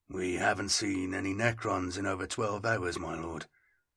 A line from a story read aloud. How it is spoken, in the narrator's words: I muttered